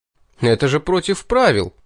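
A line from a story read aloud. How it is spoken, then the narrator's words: Indignant exclamation. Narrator (Russian): возмущенно воскликнул я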